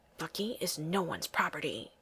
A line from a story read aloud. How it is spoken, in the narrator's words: hisses